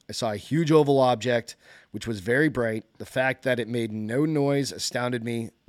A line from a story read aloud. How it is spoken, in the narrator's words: Messina said